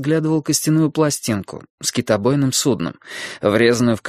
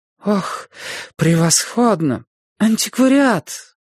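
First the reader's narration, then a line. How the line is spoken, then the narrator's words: Sighing. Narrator (Russian): Она вздохнула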